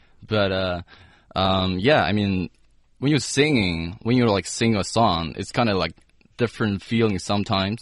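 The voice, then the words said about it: Deep, low-pitched speaking voice. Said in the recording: “talking into like a really, real deep voice ... I'd like to speak in like, uh, lower pitch”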